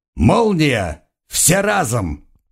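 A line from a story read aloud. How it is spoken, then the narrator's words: Shouting. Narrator (Russian): крикнул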